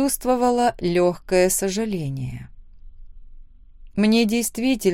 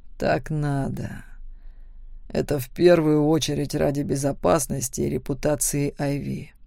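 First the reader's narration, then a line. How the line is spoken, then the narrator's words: Quiet, almost pleading. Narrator (Russian): он тихо произнес почти просящим голосом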